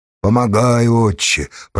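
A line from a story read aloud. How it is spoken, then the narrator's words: Grumbling. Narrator (Russian): проворчал Павел Калиннику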